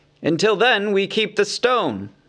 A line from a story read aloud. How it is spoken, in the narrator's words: cried Bard